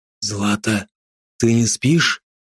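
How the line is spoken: Whispered question. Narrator (Russian): шепотом поинтересовался Андрей

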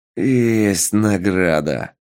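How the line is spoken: Zombie growl. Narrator (Russian): прорычал зомби на зомбячем языке

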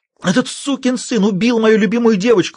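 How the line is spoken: Shrill shriek. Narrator (Russian): взвизгнул Сандерс

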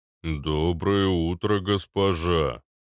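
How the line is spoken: Booming drone. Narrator (Russian): прогудел Арнольд

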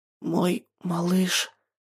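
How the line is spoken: Hoarse young woman. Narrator (Russian): хрипит девушка

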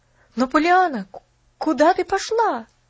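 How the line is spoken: Exclamation. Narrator (Russian): воскликнул Джимми

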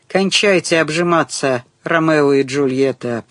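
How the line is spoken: Grumbling. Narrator (Russian): проворчал блондин

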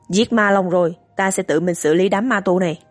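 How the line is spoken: Cold speech. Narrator (Vietnamese): Biển Hút lạnh lùng nói

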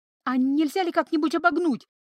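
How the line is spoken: Pleading. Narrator (Russian): взмолилась Ива

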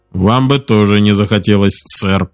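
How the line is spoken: Muttering. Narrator (Russian): пробурчал Дженкинс

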